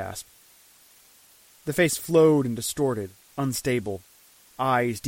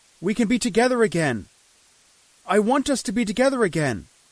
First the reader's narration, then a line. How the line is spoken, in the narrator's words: I shouted